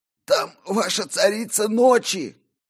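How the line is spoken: Hoarse male wheeze. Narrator (Russian): просипел он

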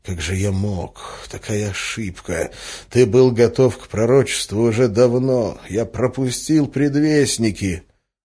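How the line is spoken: Quiet muttering. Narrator (Russian): учителем, который тихо бормотал на ходу

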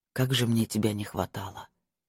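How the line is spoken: Quiet, admiring. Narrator (Russian): произнес он тихим голосом, покачав в восхищении головой

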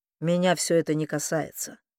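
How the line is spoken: Cold. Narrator (Russian): холодно отозвался Люк

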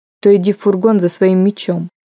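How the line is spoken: Surprisingly even voice. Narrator (Russian): сказал Коул удивительно ровным голосом

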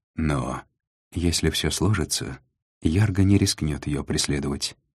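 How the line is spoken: Quiet reply. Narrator (Russian): негромко ответил Треми

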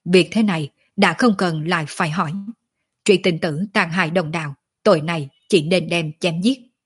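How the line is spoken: Loud stern shout. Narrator (Vietnamese): Vị Tam Thanh Tông tông chủ Linh Hóa đạo sĩ lớn tiếng quát

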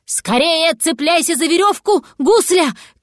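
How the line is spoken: Shouted. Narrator (Russian): крикнул кот

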